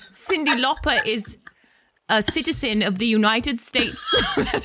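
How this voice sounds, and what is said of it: Bad attempt at Australian accent. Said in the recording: “That's Australian. ... That's horrible. That's horrible. ... it's always like Mexican Irish.”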